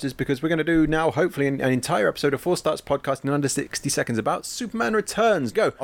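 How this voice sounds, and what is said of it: Talking very fast. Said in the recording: “The reason I'm talking so fast”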